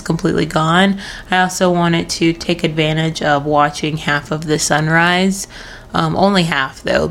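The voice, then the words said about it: Strained voice, losing her voice. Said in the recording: “I sound a bit weird compared to the last couple of episodes. I think that I am in the works of losing my voice”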